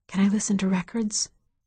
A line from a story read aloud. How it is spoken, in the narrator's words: she whispered